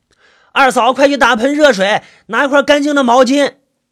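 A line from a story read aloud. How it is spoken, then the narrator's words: Calling out. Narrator (Chinese): 送父亲回来的人喊着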